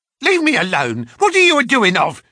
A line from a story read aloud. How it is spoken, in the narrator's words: she screeched